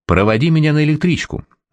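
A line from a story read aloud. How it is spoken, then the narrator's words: Sharp tone. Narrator (Russian): резким тоном сказала жена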